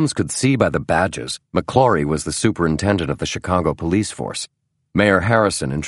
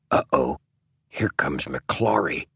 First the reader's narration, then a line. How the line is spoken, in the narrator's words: the mayor said in a very soft voice to Bonfield